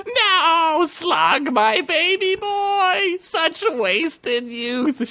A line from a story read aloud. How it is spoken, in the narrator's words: wailed